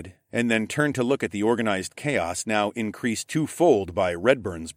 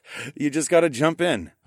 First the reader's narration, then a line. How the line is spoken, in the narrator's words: I chuckled